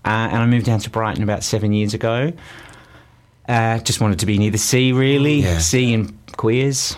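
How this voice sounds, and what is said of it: Strong Northern Australian accent. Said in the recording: “there's an Antipodean accent there, a roaring one. ... Northern Australia. ... my accent came back with a vengeance”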